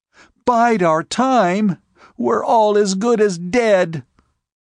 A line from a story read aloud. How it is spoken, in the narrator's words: One of the girls began screaming